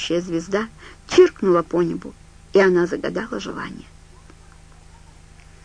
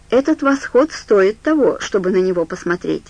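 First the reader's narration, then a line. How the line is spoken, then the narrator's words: Plain. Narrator (Russian): сказал Стью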